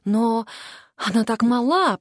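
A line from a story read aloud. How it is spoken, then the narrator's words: Whisper. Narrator (Russian): прошептала Мелисса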